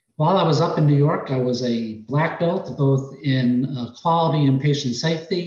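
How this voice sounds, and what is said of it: New York accent, fast speech. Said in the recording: “You may be able to detect it in my accent uh, and in the speed of my speaking”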